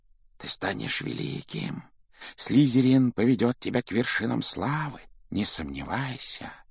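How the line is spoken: Whisper in ear. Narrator (Russian): Она шептала на ухо

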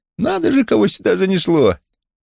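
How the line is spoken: Squeak. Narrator (Russian): пропищал

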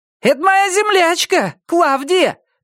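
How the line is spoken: Shouted. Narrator (Russian): крикнула Энджел

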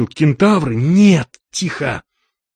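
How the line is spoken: Whispered question. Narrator (Russian): Макс шепотом спросил

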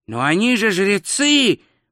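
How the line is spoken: Howl. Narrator (Russian): взвыл два цветок

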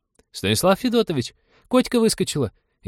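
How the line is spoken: Frightened exclamation. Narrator (Russian): испуганно воскликнула Полина

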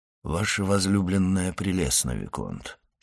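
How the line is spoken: Completely calm voice. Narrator (Russian): сказал он, наконец, совершенно спокойным голосом

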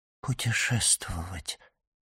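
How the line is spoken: Whisper. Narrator (Russian): прошептала госпожа Данглар

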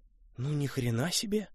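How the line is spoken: Amazed mutter. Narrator (Russian): пробормотал Костя, не скрывая изумления

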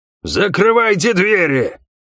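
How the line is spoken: Roaring. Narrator (Russian): проревел рыжий

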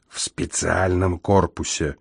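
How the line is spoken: Whispered addition. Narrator (Russian): шепотом добавил я

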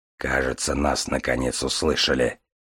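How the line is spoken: Through gritted teeth. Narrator (Russian): сквозь зубы выговорил Железовский

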